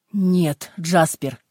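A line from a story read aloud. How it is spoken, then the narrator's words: Shouting. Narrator (Russian): крикнул Пен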